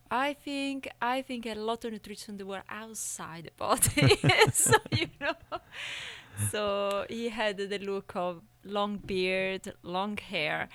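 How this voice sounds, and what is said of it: Speaks with a noticeable accent. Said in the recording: “Sorry, the accent.”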